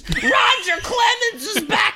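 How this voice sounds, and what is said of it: Loud yelling announcer voice. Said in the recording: “she was like yelling into the mic ... I'm doing a terrible impression ... It didn't sound anything like.”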